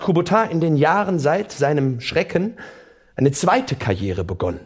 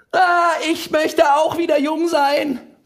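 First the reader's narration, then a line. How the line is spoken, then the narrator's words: Shrieking. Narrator (German): kreischt einer der Moderatoren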